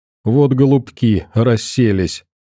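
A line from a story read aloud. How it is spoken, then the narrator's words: Laughing. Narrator (Russian): рассмеялся Сашка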